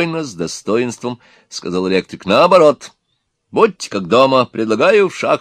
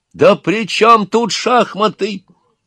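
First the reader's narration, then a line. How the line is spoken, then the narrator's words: Shouting. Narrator (Russian): закричал Назаров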